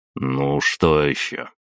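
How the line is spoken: Heavy sigh. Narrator (Russian): тяжело вздохнул

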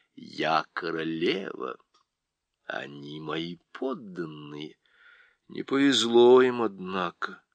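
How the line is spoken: Quiet. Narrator (Russian): тихо сказал Дигори

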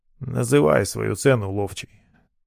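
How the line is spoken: Dry command. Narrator (Russian): сухо велел он

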